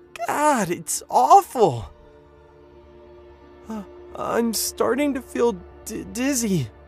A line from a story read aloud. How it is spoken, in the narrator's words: John whimpered